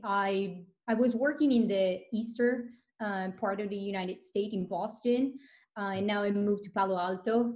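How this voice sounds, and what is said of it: Italian accent. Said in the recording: “I noticed the accent. ... born and raised in Italy”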